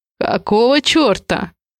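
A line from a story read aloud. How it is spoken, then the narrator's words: Rude, curt. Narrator (Russian): Грубо бросаю я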